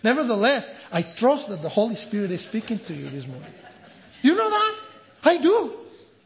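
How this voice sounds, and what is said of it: Strong, hard-to-understand foreign accent. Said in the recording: “hard things that you listen or difficult to understand because of my accent”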